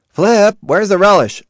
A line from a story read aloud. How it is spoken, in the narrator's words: shouted